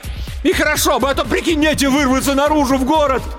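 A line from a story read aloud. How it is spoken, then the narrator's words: Deep-breath shout. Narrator (Russian): Илья набрал побольше воздуха и закричал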